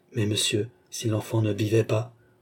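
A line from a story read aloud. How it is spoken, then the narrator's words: Timid objection. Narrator (French): objecta timidement la nourrice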